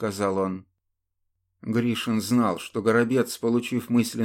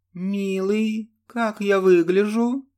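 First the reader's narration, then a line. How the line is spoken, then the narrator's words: Melodious question. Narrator (Russian): спросила она мелодичным голосом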